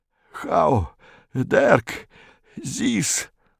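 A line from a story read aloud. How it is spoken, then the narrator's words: Muttered. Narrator (Russian): бормотал Виконт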